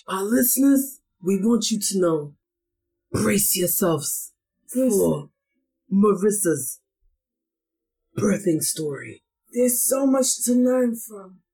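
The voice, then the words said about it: Put-on Godfather-style gangster accent. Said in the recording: “you may wonder why we have this accent going on, but we felt like the most gangster person out of the group is Marissa ... the theme music of The Godfather”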